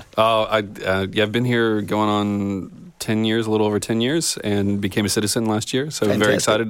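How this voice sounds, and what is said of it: American accent. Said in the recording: “American background, I noted from the accent.”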